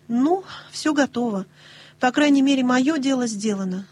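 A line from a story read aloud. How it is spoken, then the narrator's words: Sighing. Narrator (Russian): вздохнула Нэнси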